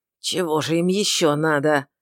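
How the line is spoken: Hissing. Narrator (Russian): Шамит не говорил, он шипел

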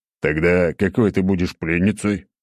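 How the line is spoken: Snorting reply. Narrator (Russian): хмыкнул в ответ

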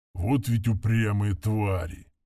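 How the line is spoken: Grumbling under breath. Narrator (Russian): пробурчал он себе под нос

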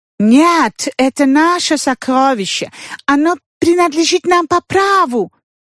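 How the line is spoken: Shouting in broken French. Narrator (Russian): закричали на ломаном французском испанцы

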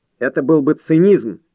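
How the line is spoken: Sharp. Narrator (Russian): резко сказал Варди

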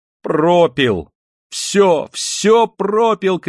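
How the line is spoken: Woman shouting in despair. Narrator (Russian): кричала в отчаянии бедная женщина

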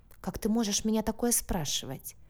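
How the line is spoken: Quiet question. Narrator (Russian): тихо спросила Соня

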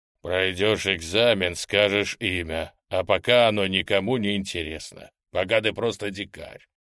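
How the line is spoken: Calm deep voice. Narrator (Russian): спокойно пробасил Гриня

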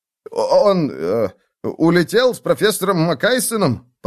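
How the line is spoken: Stammering mutter. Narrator (Russian): пробормотал, заикаясь, студент

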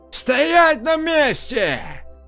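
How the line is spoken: Shout. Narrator (Russian): крикнул

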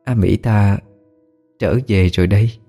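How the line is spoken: Soft, smiling. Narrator (Vietnamese): cô ta mỉm cười rồi khẽ nói

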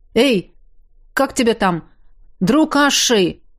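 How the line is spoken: Sudden shout. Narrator (Russian): вдруг крикнули

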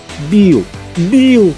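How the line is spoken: Pleading. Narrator (Russian): взмолился Келли

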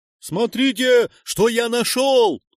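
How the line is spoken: Shout from a tree. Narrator (Russian): прокричал тот заключенный, что залез на дерево

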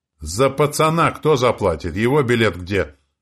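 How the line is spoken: Shouted. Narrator (Russian): крикнула проводница

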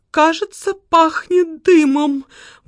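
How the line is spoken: Said fearfully. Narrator (Russian): испуганно проговорила

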